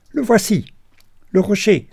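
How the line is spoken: Male exclamation. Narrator (French): s'écria-t-il

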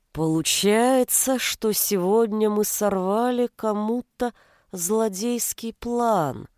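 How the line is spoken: Slow speech. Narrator (Russian): медленно проговорил Иванушка

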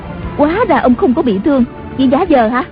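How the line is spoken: Surprised and angry. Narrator (Vietnamese): Tần Hồng Miên ngạc nhiên, giận dữ nói

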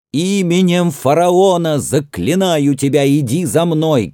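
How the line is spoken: Shouted. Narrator (Russian): крикнул Тутмос

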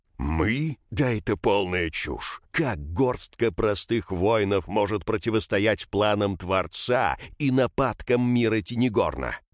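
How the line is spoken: Menacing roar. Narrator (Russian): Шабр грозно проревел

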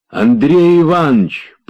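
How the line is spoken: Joyful hoarse rasp. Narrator (Russian): прохрипел он радостно

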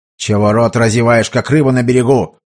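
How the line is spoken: Angry yet anxious merchant. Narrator (Russian): зло и в то же время встревоженно бросил купец

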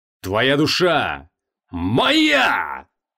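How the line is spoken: Roar. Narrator (Russian): Взревел он

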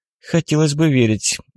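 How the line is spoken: Sigh. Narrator (Russian): Алина вздохнула

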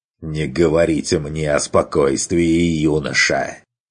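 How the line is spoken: Angry hiss. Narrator (Russian): Прошипел бюргермайстер зло

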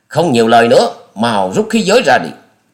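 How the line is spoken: Roared. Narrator (Vietnamese): Gã đó gầm lên nói

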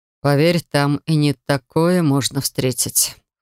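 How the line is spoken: Man's wry snort. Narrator (Russian): хмыкнул мужчина

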